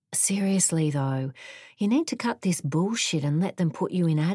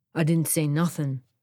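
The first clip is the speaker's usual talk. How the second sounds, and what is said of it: Tough criminal character voice. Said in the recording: “in my best criminal scumbag voice.”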